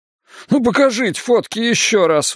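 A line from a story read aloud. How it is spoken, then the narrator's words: Pleading. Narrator (Russian): взмолился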